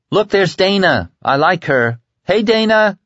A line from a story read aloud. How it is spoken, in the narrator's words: he yelled